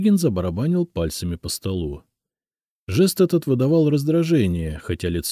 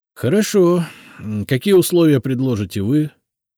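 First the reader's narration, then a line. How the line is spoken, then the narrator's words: Sighing. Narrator (Russian): вздохнул он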